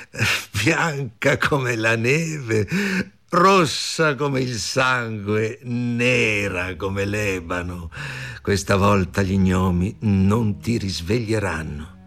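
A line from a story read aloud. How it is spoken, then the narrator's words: Cruel loud laughing speech. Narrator (Italian): La regina con occhio crudele, ridendo rumorosamente, e disse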